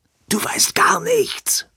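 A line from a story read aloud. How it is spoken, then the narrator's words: Whispered. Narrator (German): flüsterte Edwin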